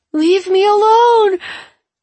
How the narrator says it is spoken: Andrew yells for Wen

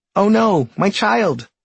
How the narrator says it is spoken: shouts the tree in alarm

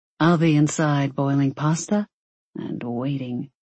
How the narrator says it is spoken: he purred

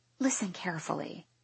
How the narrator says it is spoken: whisper to Jess

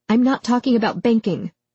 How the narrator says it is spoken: Melody snapped at George

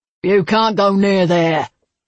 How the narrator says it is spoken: he hollered

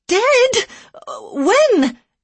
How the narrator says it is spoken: she cried

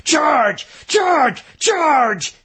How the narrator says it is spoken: With a power born of righteousness and fear, the schoolteacher from Maine roared

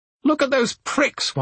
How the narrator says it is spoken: one of the oldest ladies in the bath shrieked

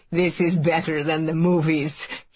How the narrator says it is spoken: says with a laugh

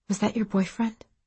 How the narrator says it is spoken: Maisie whispered from the bottom bunk

